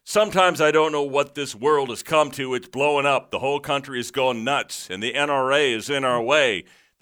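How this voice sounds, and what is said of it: Rap-style performing voice. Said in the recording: “in my rap voice ... you know I'm pretty good at that”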